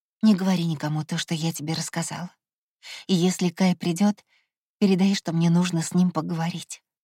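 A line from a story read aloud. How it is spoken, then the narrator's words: Soft whisper. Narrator (Russian): тихо зашептала я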